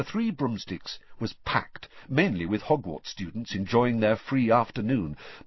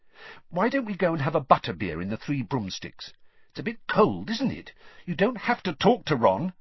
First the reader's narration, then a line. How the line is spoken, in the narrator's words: she added irritably